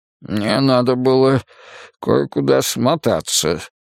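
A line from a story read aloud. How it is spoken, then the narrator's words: Mumbling. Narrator (Russian): промямлил Бергдорф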